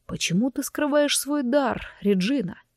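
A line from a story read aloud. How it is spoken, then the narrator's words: Serious, husky question. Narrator (Russian): от серьезности его вопроса, то ли от хриплых ноток в его голосе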